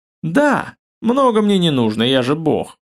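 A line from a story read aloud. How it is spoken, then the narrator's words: Smug chuckle. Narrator (Russian): самодовольно хохотнул Сав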